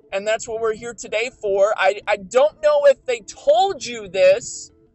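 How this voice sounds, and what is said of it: Raised, loud speaking voice. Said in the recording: “why are you raising your voice to me, young man? ... I just wasn't sure if you could hear me.”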